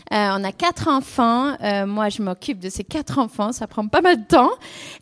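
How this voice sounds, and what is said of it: English accent speaking French. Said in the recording (French): “Je suis anglaise, si jamais vous entendez l'accent, c'est pour ça.”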